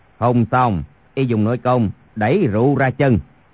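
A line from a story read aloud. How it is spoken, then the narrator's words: Lowered voice. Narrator (Vietnamese): Chu Thông hạ giọng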